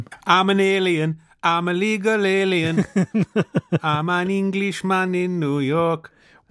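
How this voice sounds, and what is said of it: Sung mock Caribbean-sounding accent. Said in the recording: “Why does he do that voice when he sings that song? ... A kind of COD Caribbean accent? ... it sounds COD Caribbean ... a kind of accentuated Geordie yodel sort of sound”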